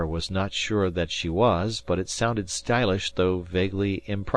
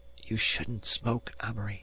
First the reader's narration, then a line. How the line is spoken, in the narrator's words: she whispered